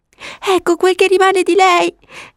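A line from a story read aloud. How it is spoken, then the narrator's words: Sobbing. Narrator (Italian): disse singhiozzando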